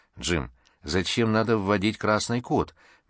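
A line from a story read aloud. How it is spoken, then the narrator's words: Soft question. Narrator (Russian): мягко спросила Лиза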